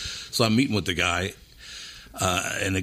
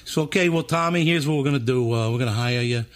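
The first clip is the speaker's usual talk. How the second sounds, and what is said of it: High-pitched Philadelphia man's voice. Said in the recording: “the guy's from Philadelphia. He's got a voice like this. He kind of talks like this. You know those guys from Philly that talk a really high voice like this?”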